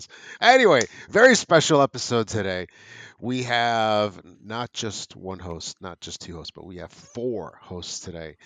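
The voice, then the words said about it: Slightly congested voice. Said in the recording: “A little congested. I don't know if you can tell by my voice”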